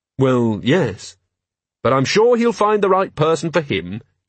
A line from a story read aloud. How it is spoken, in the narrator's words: Carrot added cheerfully